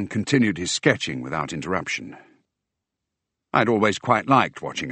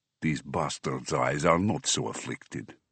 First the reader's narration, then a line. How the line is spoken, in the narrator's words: Under his breath, but audibly, he added